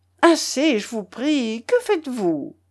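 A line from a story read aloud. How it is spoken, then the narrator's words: Extremely alarmed exclamation. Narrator (French): s'écria Pulchérie Alexandrovna, alarmée au dernier point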